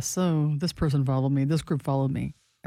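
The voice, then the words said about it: Imitates another person's voice. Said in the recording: “Do you think my voice sounds like that impersonation you do?”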